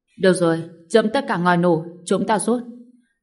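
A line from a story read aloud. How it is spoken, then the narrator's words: Deep-voiced shout. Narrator (Vietnamese): trầm giọng quát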